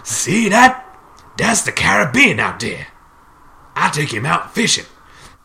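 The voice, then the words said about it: Put-on character accent. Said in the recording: “Quarrel goes, and I'm gonna do the accent.”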